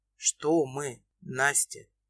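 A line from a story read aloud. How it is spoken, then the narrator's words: Husky question. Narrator (Russian): Хриплым голосом, разгоняя толпы мурашек, спрашивает Илья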